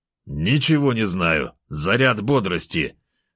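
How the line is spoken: Growling. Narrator (Russian): Зарычал медведь я

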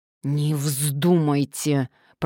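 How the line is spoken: Hissing through teeth. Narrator (Russian): прошипел мужчина сквозь зубы

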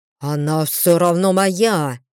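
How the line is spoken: Growled. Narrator (Russian): прорычал Брэйд

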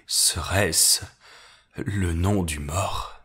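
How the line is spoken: Murmuring. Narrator (French): murmurai-je

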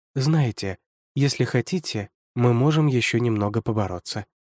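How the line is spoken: Tender speech. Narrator (Russian): Жильберта ласково сказала мне

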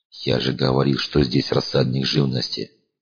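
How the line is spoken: Sad. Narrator (Russian): грустно произнес Зеленый

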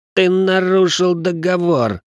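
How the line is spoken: Pained wheeze. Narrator (Russian): просипел Ричард, в кишках которого словно кто-то разжег костер

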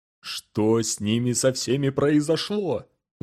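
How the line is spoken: Angry self-questioning. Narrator (Russian): злобно спрашивал себя Джендер

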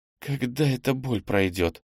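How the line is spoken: Moaning. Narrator (Russian): простонала

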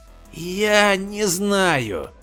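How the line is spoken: Hoarse, barely audible. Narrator (Russian): повторил он хриплым, еле слышным голосом

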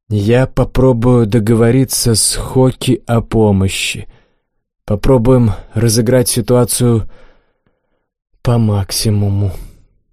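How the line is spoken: Sighed. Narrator (Russian): вздохнул я

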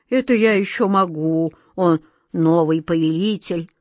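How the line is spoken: Dejected. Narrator (Russian): уныло кивнул головой Джин

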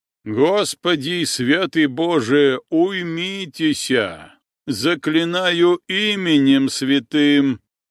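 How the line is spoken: Loud slow solemn chanting priest. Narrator (Russian): священник принялся громко читать молитвы, медленно, важно, нараспев

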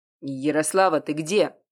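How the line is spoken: Rough voice. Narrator (Russian): голос прозвучал довольно грубо

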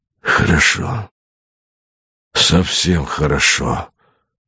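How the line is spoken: Muttering. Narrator (Russian): бормотал Богомолов

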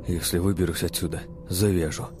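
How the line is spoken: Muttered. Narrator (Russian): пробормотал Баркер

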